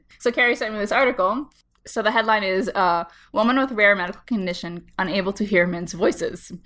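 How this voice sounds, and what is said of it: Slightly congested voice, heavy vocal fry. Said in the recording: “I have a little bit of a cold ... It's just making my vocal fry cooler ... It does intensify when you have a cold.”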